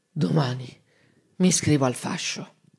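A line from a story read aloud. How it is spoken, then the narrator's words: Calm, slow, drowsy. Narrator (Italian): si calmò, piano piano, tra una bollicina di saliva e l'altra, disse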